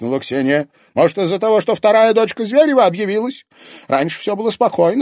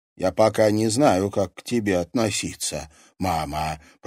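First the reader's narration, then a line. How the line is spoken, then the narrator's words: Muttered. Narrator (Russian): пробормотала она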